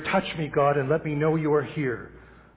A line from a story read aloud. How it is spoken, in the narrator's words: the man cried out in despair